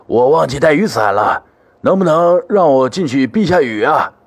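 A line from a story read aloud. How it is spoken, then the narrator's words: Old, slightly hoarse voice. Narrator (Chinese): 一个苍老的声音，似乎还带着几分沙哑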